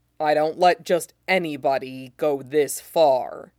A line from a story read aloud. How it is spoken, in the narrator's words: Zoro grumbles, low and hoarse in Sanji's ear